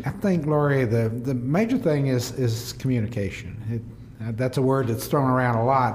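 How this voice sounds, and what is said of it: Southern US accent. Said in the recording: “You have that southern accent”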